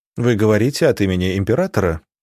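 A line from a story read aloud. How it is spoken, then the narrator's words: Prince's businesslike question. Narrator (Russian): деловым тоном спросил князь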